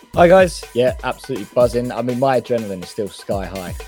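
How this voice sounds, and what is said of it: Raspy, hoarse voice. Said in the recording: “you may notice I've got a bit of a raspy voice ... I assume that's a raspy throat”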